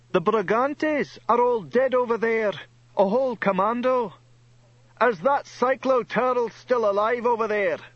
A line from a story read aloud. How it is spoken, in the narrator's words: somebody shouted